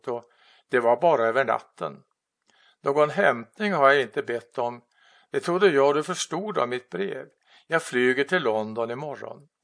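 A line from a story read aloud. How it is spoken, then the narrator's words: Calm. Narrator (Swedish): sa hon lugnt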